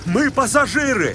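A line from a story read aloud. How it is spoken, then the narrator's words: Breathless shout. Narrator (Russian): крикнул Остап, задыхаясь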